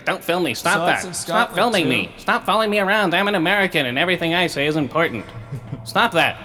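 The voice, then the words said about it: Mock uptight American voice. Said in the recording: “That's my imitation of an America.”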